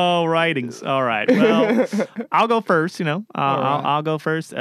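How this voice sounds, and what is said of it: Usual voice. Nothing is said of it.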